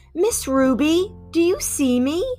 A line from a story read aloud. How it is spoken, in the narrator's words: Lily called out